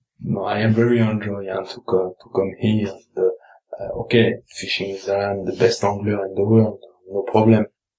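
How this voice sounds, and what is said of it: French accent. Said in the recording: “said with a French accent”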